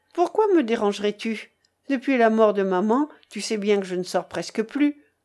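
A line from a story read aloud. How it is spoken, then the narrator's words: Cold. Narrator (French): Elle dit froidement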